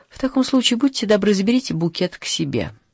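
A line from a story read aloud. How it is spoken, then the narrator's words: Pleading, breaking voice. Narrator (Russian): взмолилась София срывающимся голосом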